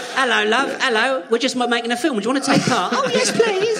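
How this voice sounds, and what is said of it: Put-on British accent. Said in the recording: “In a British accent.”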